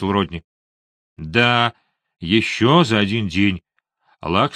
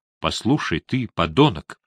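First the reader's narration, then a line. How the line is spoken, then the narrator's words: Calm. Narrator (Russian): спокойно проговорил он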